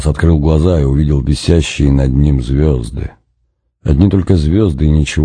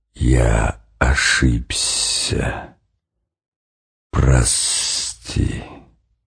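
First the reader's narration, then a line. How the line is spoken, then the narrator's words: Vast unseen hissing whisper. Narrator (Russian): кто-то незримый, но все равно очень большой, как само небо, как невиданное до сих пор море, сказал ему свистящим шепотом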